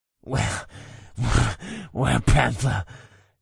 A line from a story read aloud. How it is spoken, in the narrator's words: he weakly hissed